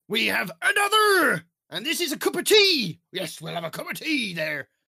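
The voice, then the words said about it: Put-on Yorkshire-like accent. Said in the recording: “I don't know what the accent was. That seems to be more Yorkshire.”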